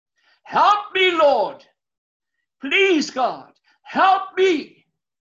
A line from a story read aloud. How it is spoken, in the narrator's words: scream, yell, cry out loud on top of your voice